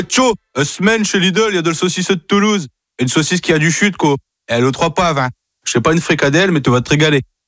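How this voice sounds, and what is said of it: Northern French regional accent. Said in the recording (French): “avec un accent du Nord”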